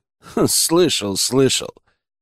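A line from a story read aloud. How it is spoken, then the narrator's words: Wry grunt. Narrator (Russian): хмыкнул я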